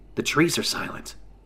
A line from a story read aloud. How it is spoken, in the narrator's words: Dex says, now in a more hushed tone